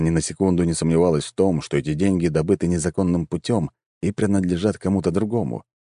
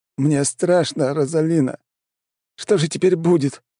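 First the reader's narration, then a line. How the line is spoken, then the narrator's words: Moaning man. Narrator (Russian): продолжал стонать мужчина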